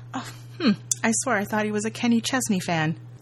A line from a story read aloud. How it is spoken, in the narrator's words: He chuckles as he walks out, saying